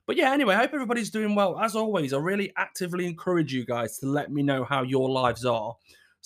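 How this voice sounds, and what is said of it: Scratchy, sore-throated voice. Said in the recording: “why I sound a little bit scratchy... I've got a bit of a sore throat... don't sound my usual chirpy self”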